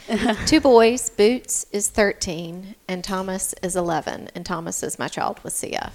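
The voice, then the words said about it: Southern American accent. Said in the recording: “southern accent.”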